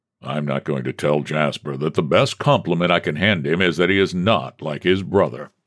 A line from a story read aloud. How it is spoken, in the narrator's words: the president grumbled